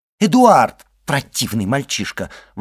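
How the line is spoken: Exclamation. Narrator (Russian): воскликнула госпожа де Вильфор

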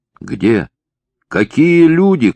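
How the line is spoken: Shout. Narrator (Russian): кричал Василий Николаевич

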